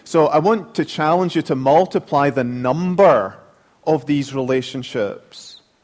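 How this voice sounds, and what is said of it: Speaker's own accent. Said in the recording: “Am I going too fast? You get used to my accent yet? ... I have to remember to slow down”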